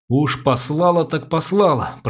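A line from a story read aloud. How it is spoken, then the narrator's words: Lisping cartoon voice. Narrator (Russian): прошепелявил мультяшный голос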